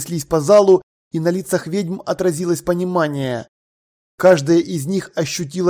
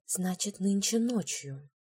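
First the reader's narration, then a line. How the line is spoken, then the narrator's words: Whisper. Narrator (Russian): прошептала Маград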